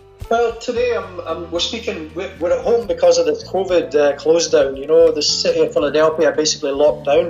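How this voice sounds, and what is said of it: Scottish accent. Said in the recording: “a fantastic Scottish accent ... I see you haven't got that Philadelphia accent yet ... my Scottish one”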